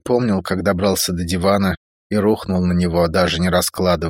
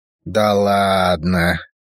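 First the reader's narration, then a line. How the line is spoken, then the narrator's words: Disappointed drawl. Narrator (Russian): разочарованно протянул Фантом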